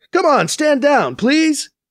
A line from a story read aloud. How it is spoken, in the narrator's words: BC yells over the comm